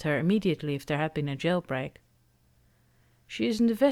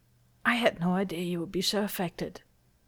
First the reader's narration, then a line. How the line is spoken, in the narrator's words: he says in a strained voice